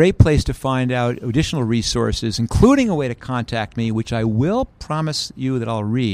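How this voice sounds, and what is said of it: Usual voice. Nothing is said of it.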